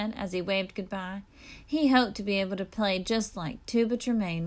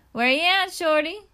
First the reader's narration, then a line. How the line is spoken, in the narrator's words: Queen Lola called out her window